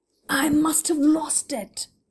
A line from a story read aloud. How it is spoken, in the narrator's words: he muttered angrily